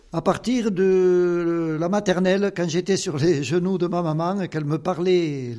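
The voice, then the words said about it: Slight regional Occitan French accent. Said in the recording (French): “Vous avez un petit accent quand même ... j'ai l'accent du pays ... Ça fait partie de l'Occitanie, l'accent.”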